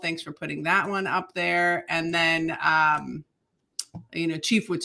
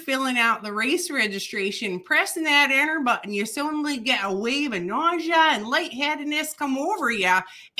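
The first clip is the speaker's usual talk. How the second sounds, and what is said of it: Put-on Midwestern American accent. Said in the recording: “No, Midwestern. I'm going ... to do uh it in a Midwestern.”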